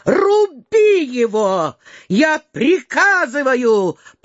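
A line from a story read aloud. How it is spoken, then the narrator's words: Pale, frightened shout. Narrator (Russian): прокричал Ростопчин, вдруг побледнев так же, как и Верещагин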